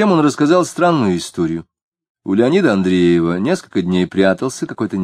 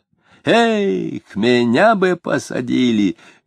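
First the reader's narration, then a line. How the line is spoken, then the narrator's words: Cheerful speech. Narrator (Russian): весело сказал он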